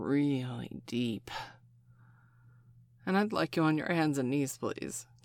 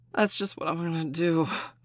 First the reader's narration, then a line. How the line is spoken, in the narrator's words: Colin gasped